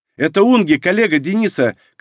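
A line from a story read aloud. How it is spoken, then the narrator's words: Echoing shout. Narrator (Russian): крикнула Унги, и эхо прокатилось по каменным сводам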